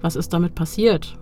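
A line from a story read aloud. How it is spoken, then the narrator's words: Plain. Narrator (German): fragt sie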